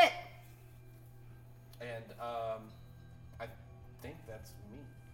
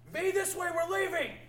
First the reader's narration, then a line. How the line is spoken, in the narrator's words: I'm going to yell into the darkness